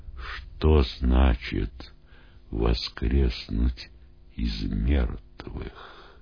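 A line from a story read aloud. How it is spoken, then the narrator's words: Hesitant whispered questions. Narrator (Russian): Не решаясь обратиться к нему, ученики шепотом спрашивали друг у друга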